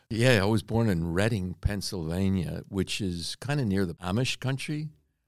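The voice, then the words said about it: Pennsylvania accent. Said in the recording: “we can tell a little bit by the accent, but Pennsylvania ... I still haven't lost the accent”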